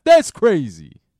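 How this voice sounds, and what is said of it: Tracy Morgan impression as Brian Fellows. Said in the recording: “I feel like Tracy Morgan saying, that's crazy ... When he was Brian Fellows on Saturday Night Live ... I should probably not do that impression many more times.”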